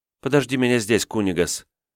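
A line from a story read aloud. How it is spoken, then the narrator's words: Asking. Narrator (Russian): попросила Сауля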